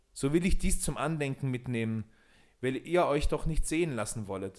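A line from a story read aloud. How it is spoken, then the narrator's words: Called out. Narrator (German): rief Peter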